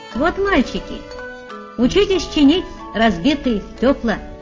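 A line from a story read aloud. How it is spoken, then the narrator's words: Cheerful. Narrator (Russian): сказал он весело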